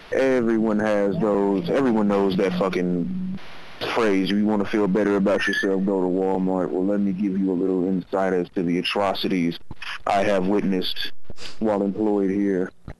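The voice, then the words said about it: Texan accent, Houston Fifth Ward. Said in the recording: “He's from Texas, but notice his accent. He sounds, he's got like this badass accent. ... I like this guy's voice. ... Like, he's from the Fifth Ward.”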